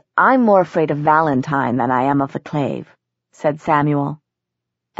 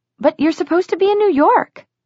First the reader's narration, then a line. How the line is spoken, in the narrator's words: Isabel exclaimed